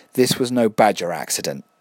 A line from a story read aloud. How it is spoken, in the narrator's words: said